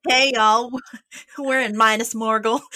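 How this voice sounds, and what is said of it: Put-on Southern accent. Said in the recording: “Oh god, I'm terrible at accents ... with a southern accent”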